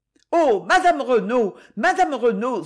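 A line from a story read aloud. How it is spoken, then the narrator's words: Exclaimed. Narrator (French): s'écria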